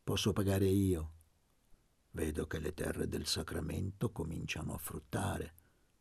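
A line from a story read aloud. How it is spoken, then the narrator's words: Murmured. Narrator (Italian): mormorò Gesualdo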